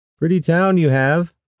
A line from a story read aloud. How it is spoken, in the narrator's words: Rashan shouted in Safshan